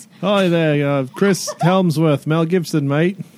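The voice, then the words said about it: Put-on Australian accent. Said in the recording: “I will learn how to do an Australian accent... It will be very hard... can pull off that accent”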